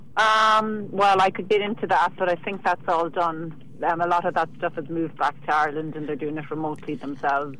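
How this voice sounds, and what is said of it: Charming Irish accent. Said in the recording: “your accent is just adorable”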